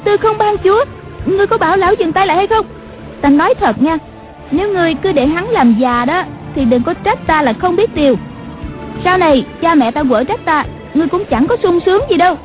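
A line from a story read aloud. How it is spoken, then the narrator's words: Startled, frightened cry. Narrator (Vietnamese): Nàng giật mình kinh hãi la lên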